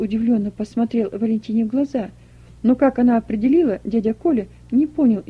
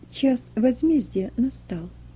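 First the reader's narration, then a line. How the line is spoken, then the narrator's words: Quiet. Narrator (Russian): тихо сказала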